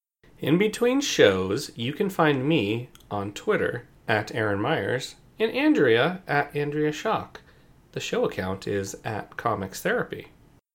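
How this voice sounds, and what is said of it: Radio announcer voice. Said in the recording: “announcer voice”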